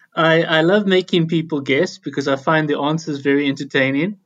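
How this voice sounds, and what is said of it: South African accent with lilt. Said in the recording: “an accent that sounds slightly foreign to us. It has a delightful lilt to it ... South Africa”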